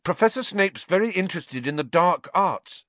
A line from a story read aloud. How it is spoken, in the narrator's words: blurted out